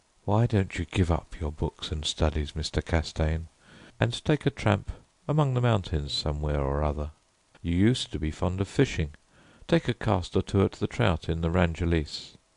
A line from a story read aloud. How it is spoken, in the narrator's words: said very gently